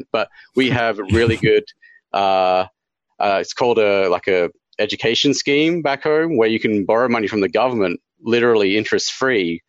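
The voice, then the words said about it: Australian accent. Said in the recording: “I'm from Australia, if you hadn't detected my accent”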